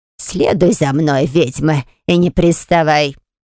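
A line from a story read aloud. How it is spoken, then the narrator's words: Raspy grating voice. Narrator (Russian): просипела царапающим слух голосом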